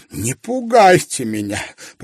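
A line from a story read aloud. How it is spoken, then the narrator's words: Moaning. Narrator (Russian): простонал он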